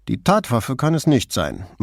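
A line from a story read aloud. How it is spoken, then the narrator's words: Dry remark. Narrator (German): meinte Borghese trocken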